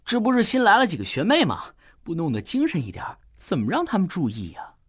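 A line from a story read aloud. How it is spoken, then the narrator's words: Chuckling, low voice. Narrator (Chinese): 奥斯卡嘿嘿一笑 低声说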